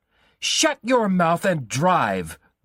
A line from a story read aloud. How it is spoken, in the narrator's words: Bruno screamed